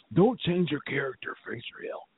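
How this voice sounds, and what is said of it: Imitates another person's voice. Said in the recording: “my Jake Roberts impersonation.”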